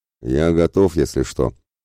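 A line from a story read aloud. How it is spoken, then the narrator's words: Pleased eager grumble. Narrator (Russian): довольно проворчал в предвкушении славной вылазки Ратибор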